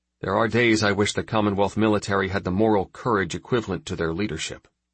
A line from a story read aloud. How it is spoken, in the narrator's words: he said dryly